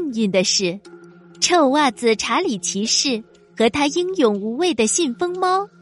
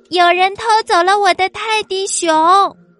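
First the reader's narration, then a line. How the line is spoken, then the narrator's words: Princess screaming loudly. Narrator (Chinese): 小公主突然大声尖叫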